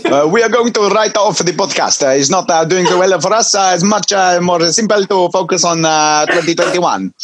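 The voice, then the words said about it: Stereotypical put-on Italian accent. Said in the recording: “Would you like a Parmesan with my stereotypical accent? ... thank you for your accents today”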